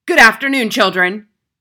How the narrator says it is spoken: she barked

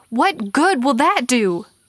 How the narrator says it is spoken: He yelled

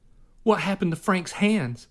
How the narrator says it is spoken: cried

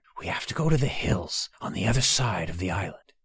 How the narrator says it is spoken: Beinara whispered to Tay and Vaster

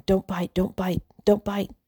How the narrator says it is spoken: Jenna was leaning over the gerbil, whispering

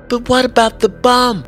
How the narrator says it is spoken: Amy begged

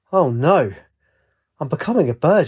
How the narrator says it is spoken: she cried

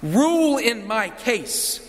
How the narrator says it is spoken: she says

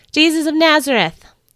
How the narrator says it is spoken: one of the Roman guards shouted from behind me

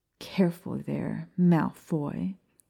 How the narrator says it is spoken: Maya snarled

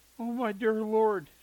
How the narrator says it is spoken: she exclaimed

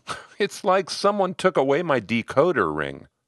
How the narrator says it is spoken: He gave a wistful little laugh, saying

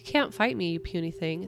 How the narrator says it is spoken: it said

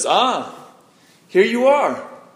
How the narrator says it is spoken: he exclaimed

